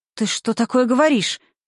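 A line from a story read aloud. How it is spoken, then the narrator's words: Feigned fright. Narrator (Russian): нарочито испуганно сказала Римма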